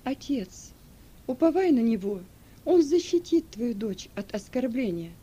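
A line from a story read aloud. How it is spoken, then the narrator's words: Calm. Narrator (Russian): Она спокойно произнесла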